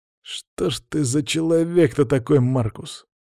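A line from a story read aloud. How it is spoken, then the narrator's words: Quieter grumbling. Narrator (Russian): тише заворчал второй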